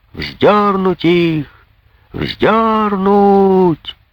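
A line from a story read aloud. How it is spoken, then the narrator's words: Crowd shouting all around. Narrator (Russian): кричали со всех сторон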